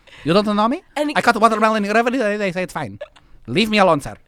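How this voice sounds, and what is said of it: Convincing put-on foreign accent. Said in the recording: “How is that not a real person? I mean, I just bought every bit of that accent.”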